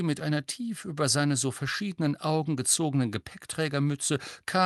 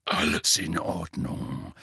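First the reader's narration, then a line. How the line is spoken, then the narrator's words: Murmured. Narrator (German): murmelte er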